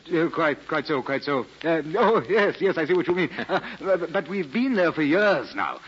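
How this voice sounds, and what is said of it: Speaks with a noticeable accent. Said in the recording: “I could tell from your accent.”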